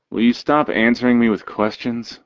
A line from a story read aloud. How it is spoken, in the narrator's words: He chuckles